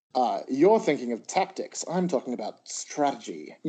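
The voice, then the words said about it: Tyrion Lannister impression, Peter Dinklage accent. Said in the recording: “My accent was better than Peter Dinklage's just then.”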